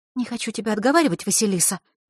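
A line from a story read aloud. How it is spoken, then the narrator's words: Quick whisper. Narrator (Russian): быстро прошептала Захарра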